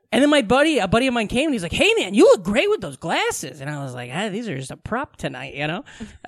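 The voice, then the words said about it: Midwestern American accent. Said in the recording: “You sound very Midwestern.”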